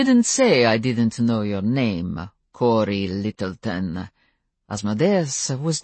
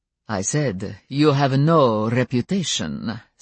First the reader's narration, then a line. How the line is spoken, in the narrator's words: Stefan replied, still in that light, careless voice